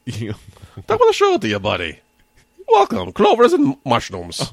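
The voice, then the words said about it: Poor put-on Irish accent. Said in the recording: “Is that supposed to be your Irish accent? ... I can do an Irish accent. ... You need help.”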